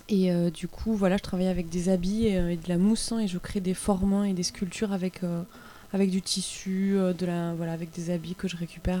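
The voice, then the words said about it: Slight regional French accent. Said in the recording (French): “Parce qu'il y a un petit accent. ... je suis originaire de Carcassonne”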